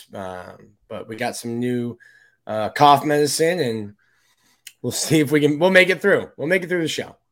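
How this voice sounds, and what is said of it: Sick, congested voice. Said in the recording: “It's my flu game. ... You probably hear it in my voice,”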